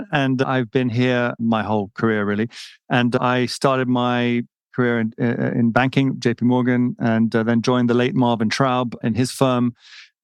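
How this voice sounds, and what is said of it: British accent. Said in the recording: “as you can hear from my voice, come from across the pond”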